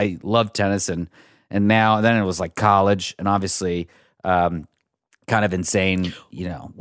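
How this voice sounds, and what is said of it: Usual voice. Nothing is said of it.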